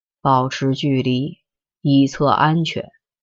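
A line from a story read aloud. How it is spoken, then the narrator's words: Slow, deep, deliberate. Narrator (Chinese): 江淮盯着他，慢吞吞的、深沉沉的说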